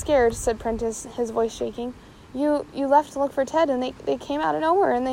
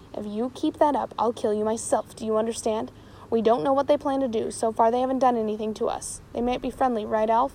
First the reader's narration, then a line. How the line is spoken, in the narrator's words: said James, his voice low but furious